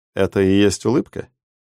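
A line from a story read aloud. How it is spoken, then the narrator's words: Calm question. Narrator (Russian): спокойно спросил неказистый плешивый человечек в очках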